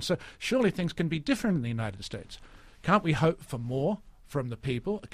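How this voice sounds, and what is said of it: Australian accent. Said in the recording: “as much an American as you are an Australian, except for that accent.”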